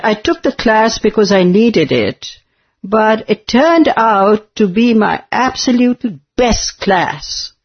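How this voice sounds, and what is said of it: British-sounding accent. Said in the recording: “that accent? You sound so British.”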